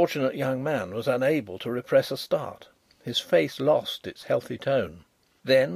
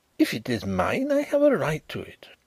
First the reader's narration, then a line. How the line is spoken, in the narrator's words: he exclaimed